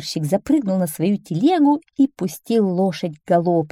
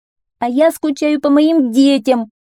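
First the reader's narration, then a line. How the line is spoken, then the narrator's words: Mother shouting. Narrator (Russian): закричала одна мама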